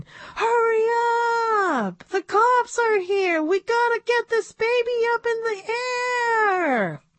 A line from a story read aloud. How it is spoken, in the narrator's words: We were all yelling at Brenton